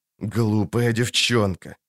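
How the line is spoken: Angry hiss. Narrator (Russian): зло зашипел он

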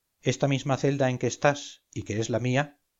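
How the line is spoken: Plain. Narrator (Spanish): dijo

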